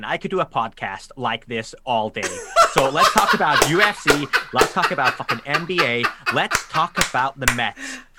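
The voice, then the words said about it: Put-on American accent. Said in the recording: “it's much easier to imitate. It's so much easier to do your accent ... That's a great American accent, man.”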